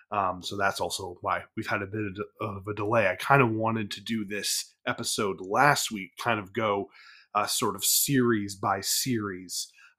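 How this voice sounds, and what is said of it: Slightly off voice from a cold. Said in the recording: “my voice sounds a little off. I'm recovering from a cold.”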